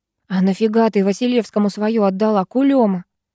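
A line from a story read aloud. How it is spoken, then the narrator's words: Hissing. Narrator (Russian): зашипела Ирка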